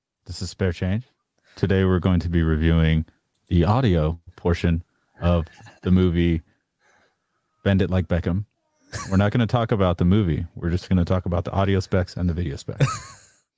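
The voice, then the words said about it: Imitates another person's voice. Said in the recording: “Can I hear your best spare change impression”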